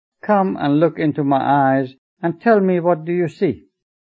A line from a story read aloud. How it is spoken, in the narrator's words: She laughed heartily and told Ruhullah